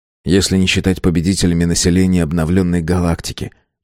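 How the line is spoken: Gentle objection. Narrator (Russian): мягко возразил Юнс

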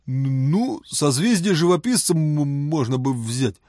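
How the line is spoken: Uncertain guess. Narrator (Russian): неуверенно предположил он

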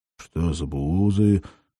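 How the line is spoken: Confused question. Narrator (Russian): растерянно поинтересовался Зернов

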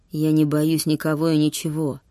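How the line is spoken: Gritted through gapped teeth. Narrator (Russian): процедил он сквозь прореху в зубах

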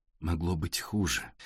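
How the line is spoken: Soft. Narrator (Russian): мягко сказала Александра Игоревна

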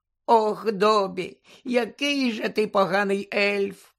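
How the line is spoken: Tearful moan. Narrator (Ukrainian): простогнала Вінкі, знову заливаючись слізьми

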